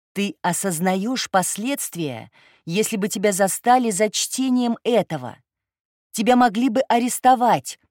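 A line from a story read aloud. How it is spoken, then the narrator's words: Woman shouting. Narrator (Russian): прокричал баба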